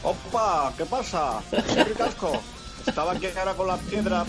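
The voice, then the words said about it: Put-on Andalusian Spanish accent. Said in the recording (Spanish): “con acento andaluz”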